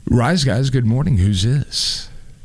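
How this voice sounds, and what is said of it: Exaggerated radio announcer voice. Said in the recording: “I had to do my radio voice.”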